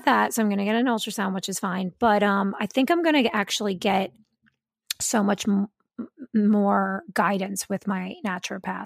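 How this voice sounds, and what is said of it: Raspy, hoarse voice. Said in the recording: “you can probably hear it in my voice. It's so raspy. ... my throat's raspy”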